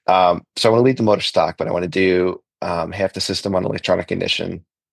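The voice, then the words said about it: Congested voice from a cold. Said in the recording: “I'm actually getting a cold right now. You can probably hear it in my voice.”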